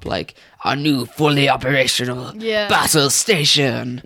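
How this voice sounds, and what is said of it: Put-on accent, fairly convincing. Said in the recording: “In a much more better accent. ... No, that was pretty good. ... that was the best accent you've done.”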